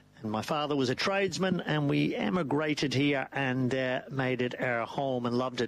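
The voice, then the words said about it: Irish accent. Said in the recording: “the old Irish twang there”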